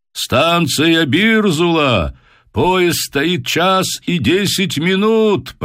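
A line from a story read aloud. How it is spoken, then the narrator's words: Shouted announcement. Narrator (Russian): прокричал кондуктор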